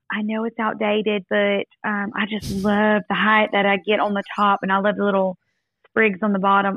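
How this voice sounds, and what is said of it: Exaggerated Southern accent. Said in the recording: “you with your Southern accent doing an even more Southern accent”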